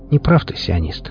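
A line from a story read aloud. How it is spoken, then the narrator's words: Quiet but very firm. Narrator (Russian): тихо, но очень твердо сказала Хип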